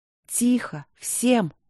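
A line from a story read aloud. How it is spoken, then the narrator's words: Quiet. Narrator (Russian): негромко сказала Ангелина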